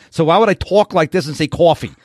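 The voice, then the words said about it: Put-on New York Bronx accent. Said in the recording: “That's New York City. That's the Bronx.”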